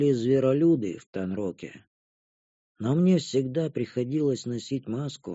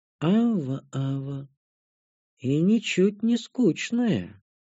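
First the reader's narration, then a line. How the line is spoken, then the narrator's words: Mocking drawl. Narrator (Russian): протянула Танша с насмешкой в голосе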